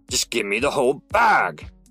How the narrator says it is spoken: the gunman snarled

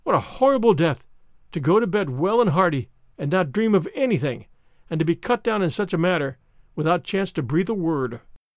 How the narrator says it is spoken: she said, in gasps

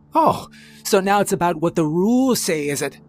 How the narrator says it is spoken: Croft snarled

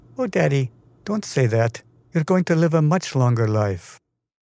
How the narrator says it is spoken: Vishaka caresses her father's shoulders saying in a tender voice

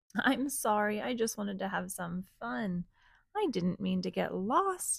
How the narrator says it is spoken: said Little Monkey

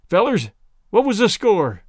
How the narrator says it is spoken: asked Daddy

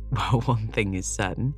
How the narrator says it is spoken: said Gilbert, laughing

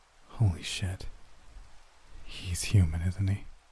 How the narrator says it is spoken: didn't bother whispering or concealing his voice

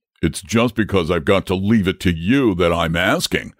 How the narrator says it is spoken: replied the dragon rather testily

